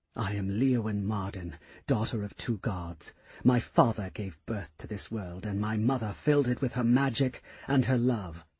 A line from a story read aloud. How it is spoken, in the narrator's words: she whispered to herself